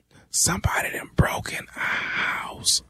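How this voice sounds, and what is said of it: Whispering. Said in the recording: “why the hell are you whispering?”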